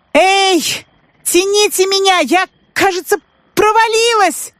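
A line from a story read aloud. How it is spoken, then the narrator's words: Shouting. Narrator (Russian): закричала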